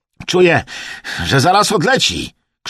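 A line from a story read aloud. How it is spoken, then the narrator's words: Wildly excited shout. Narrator (Polish): krzyknął Emerson, podekscytowany do granic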